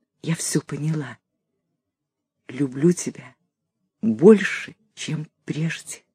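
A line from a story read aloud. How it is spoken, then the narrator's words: Quiet whisper. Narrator (Russian): тихо шепнула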